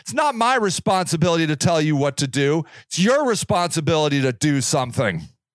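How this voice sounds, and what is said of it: Yelling. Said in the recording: “I'm yelling at you right now”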